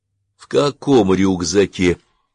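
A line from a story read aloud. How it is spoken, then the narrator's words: Weary, long-suffering question. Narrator (Russian): устало и мученически спросил Заэмба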